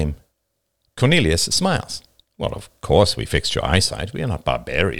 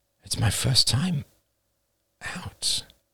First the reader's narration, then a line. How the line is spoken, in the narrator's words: I murmur